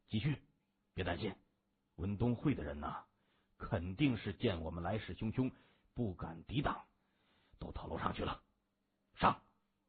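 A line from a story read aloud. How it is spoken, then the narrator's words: Low, grim voice. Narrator (Chinese): 他咬咬牙关，沉声说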